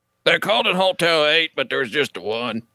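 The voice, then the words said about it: Imitates a movie character's voice. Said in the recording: “do a Sling Blade voice ... That's your dad's voice”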